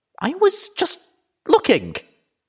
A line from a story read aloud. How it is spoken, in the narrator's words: I stammered